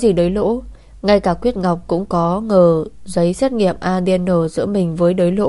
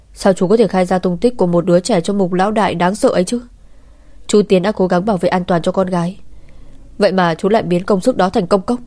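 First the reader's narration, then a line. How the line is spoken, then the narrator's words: Angry. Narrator (Vietnamese): Lam Tiễn đã tức giận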